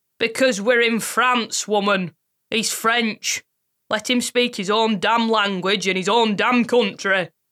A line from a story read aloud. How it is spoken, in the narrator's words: barked